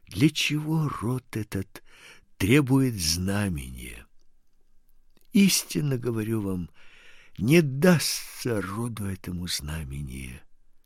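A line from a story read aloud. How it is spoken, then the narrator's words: Deep sigh, then speaking. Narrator (Russian): И он, глубоко вздохнув, сказал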